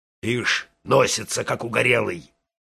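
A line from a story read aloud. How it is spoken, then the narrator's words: Grumbling. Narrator (Russian): ворчала голова Тома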